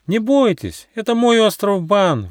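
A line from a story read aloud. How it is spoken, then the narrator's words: Monkey's exclamation. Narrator (Russian): воскликнула обезьянка Барибаска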